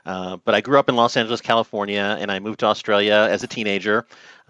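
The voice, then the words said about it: American accent. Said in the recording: “I was not able to shake my Yankee accent.”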